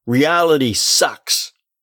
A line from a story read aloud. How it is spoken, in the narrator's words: Jerry, to the dismay of his family, was shouting